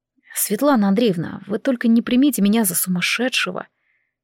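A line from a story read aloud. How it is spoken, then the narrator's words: Quiet near-whisper. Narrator (Russian): Тихо, практически шепотом проговорил парень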